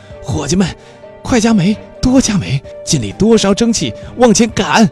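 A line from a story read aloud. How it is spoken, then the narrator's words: Shouting. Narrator (Chinese): 福尔摩斯向机器房喊道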